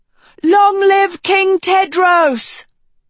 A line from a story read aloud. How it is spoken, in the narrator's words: someone shouted